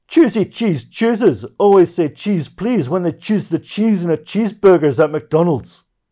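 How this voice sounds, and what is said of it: Put-on Scottish accent. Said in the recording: “You didn't need to use the Scottish accent there”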